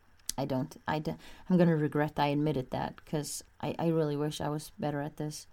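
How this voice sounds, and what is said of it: Emotional, strained voice. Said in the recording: “I think maybe you can hear from my voice. I'm, this is, this is getting to me.”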